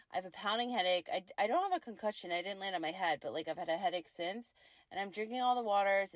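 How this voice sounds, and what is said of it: Worn-out, strained voice from a cold. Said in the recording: “my voice is shot. I've had this weird cold back and forth.”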